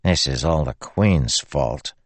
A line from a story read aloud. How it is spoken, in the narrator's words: Beard muttered softly